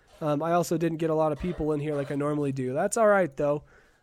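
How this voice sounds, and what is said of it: Rough, under-the-weather voice. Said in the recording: “because of my nasty cough... My voice is a little bit blah”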